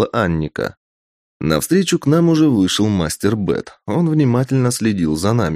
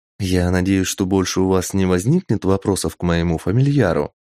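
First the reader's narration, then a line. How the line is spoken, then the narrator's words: Plain. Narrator (Russian): спросила Анника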